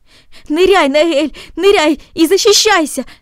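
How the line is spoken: Shouted. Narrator (Russian): закричал он

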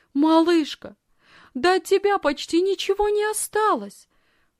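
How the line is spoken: Agitated exclamation. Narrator (Russian): взволнованно воскликнула она

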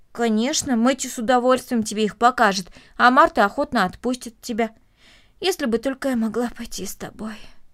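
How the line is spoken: Heavy sigh. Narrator (Russian): тяжело вздохнула Корнелли

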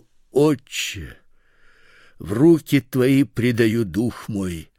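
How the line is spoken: Loud cry. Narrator (Russian): Иисус, возгласив громким голосом, сказал

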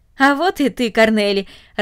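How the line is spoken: Joyful. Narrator (Russian): радостно сказал он

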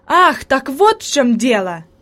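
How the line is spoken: Exclamation of sudden realization. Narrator (Russian): воскликнул Себастьян, понимая причину появления привидения

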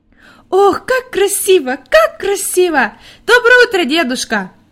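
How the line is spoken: Joyful shouting. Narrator (Russian): радостно кричала Хади

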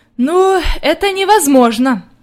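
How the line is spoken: Sighing old woman. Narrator (Russian): вздохнула бабушка

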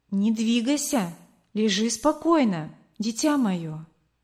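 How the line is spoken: Plain. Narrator (Russian): сказала она

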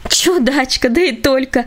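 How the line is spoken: Cheerful laughter. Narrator (Russian): весело рассмеялась она

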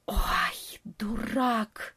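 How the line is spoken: Hissed undertone, bat. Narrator (Russian): прошипел в полголоса летучая мышь

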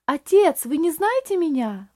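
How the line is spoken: Strained exclamation. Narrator (Russian): воскликнул Рейли, с трудом беря себя в руки

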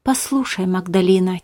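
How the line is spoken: Quiet. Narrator (Russian): тихо сказал Беппа

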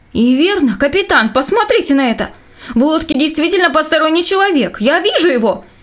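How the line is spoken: Shouting man. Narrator (Russian): закричал лейтенант Линсней

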